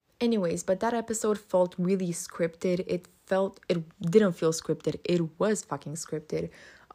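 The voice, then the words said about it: Non-native English accent. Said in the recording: “I'm not native, obviously. I'm not gonna speak with a perfect accent all the time”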